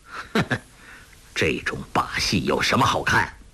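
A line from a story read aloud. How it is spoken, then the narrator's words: Cold sneer. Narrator (Chinese): 黄药师铁青了脸，冷笑道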